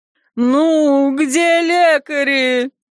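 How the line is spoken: Hysterical yelling close by. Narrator (Russian): Кто-то истерично вопил над ухом

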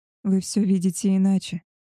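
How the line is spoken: Quiet wolf. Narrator (Russian): тихо сказал волк

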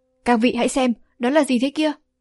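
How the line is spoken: Startled exclamation. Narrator (Vietnamese): Phiên Thiên Báo Tề Đông Giã cũng kêu lên một tiếng sừng sốt

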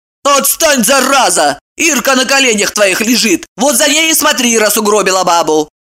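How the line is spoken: Barking shout. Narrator (Russian): Гаркнула Ева

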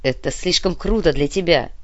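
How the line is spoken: Growling. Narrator (Russian): прорычал Дитрих

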